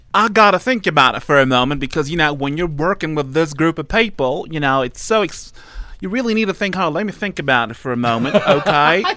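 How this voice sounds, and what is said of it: Good Dr. Phil impression. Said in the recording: “You have to answer in Dr. Phil's words ... Dr. Phil ... Such a good impression.”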